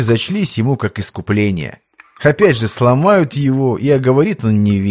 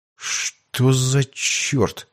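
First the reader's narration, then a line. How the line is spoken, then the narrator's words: Bewildered whisper. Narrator (Russian): растерянно прошептал Иван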